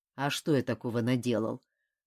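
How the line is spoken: Grumbling. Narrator (Russian): проворчал Ким

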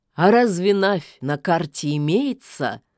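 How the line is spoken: Scoffing snort. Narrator (Russian): хмыкнул бессмертный

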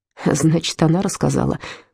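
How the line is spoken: Muttered. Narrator (Russian): пробормотал Отто

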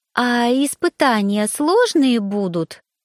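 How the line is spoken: Sweet cooing woman. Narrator (Russian): мило проворковала сидящая рядом блондинка

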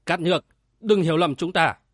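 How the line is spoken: Powerful loud shout. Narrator (Vietnamese): Tuệ Nam hít chân khí quát lớn

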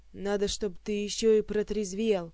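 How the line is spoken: Growling. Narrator (Russian): прорычал Элмар

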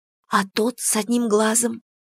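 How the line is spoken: Whispered question. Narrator (Russian): все тем же шепотом спросила я

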